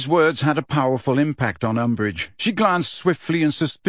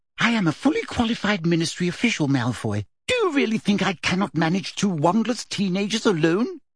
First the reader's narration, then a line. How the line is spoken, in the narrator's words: asked Umbridge sharply